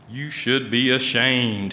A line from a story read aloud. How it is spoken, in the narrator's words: he said